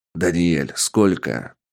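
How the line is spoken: Growled bark. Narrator (Russian): рыкнул босс

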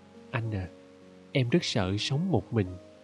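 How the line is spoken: Whisper. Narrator (Vietnamese): Thiếu nữ thì thầm

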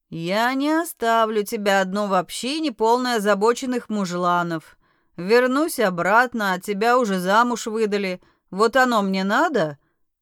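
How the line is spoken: Dismissive snort. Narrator (Russian): хмыкнул демон

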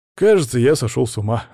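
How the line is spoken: Laughing. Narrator (Russian): рассмеялся я

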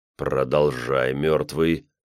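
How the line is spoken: Silent inner growl. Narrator (Russian): прорычал я мысленно

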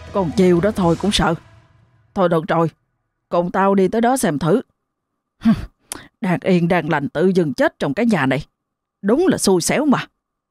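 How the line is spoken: Grumbling, reproachful. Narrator (Vietnamese): ông Khải liền cằn nhằn, trở giọng trách móc

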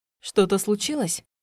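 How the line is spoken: Plain. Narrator (Russian): спросила она

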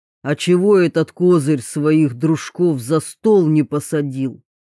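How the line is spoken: Deep booming voice. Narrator (Russian): прогудел над ухом густой голос

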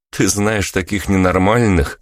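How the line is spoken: Laughing reply. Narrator (Russian): посмеялся я, но ответил все же

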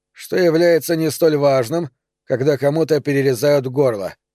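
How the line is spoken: Dry remark. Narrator (Russian): сухо заметил Нери

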